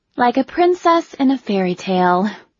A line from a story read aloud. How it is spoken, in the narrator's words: Shayla said with a wistful sigh